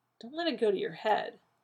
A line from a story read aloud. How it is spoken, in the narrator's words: John muttered